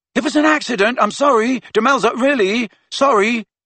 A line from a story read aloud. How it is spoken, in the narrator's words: Ron shouted after her